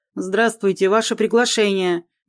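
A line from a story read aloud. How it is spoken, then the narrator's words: Deep voice, official tone. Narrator (Russian): басит официальным тоном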